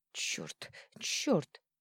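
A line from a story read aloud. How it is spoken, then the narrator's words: Wheezing. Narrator (Russian): просипела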